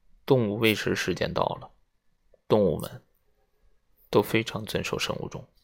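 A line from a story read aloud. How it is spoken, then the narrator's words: Low voice. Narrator (Chinese): 隆巴的低声说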